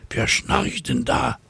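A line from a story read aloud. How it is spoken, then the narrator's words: Whispering. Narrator (German): flüstert eine Cäcilie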